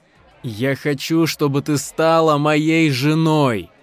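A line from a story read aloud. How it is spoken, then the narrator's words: Loud, expressive declaration. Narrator (Russian): громко и выразительно произнес смерч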